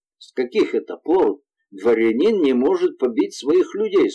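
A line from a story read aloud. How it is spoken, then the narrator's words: Plain. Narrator (Russian): спросил Ришелье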